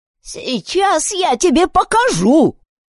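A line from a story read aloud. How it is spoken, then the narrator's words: Shouting. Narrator (Russian): закричала миссис Фанджо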